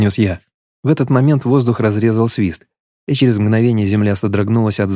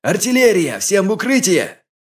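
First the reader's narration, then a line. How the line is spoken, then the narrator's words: Shouting. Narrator (Russian): закричал я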